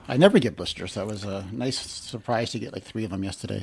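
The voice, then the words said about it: Sarcastic tone. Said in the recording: “You're being sarcastic at the moment ... I am being sarcastic that it was a nice surprise.”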